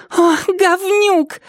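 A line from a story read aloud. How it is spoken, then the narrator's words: Shrill squeal. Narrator (Russian): взвизгнула Триша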